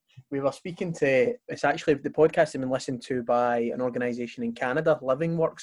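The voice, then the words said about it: Strong accent. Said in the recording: “My accent can be a bit sort of strong”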